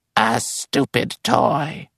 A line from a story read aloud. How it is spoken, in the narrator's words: a woman commented hoarsely